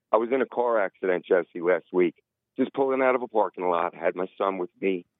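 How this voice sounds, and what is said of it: Hoarse, rough voice. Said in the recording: “my throat is a little hoarse.”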